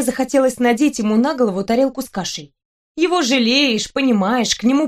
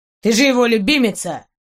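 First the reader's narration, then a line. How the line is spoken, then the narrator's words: Suddenly angry. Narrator (Russian): заявил Гарольд неожиданно зло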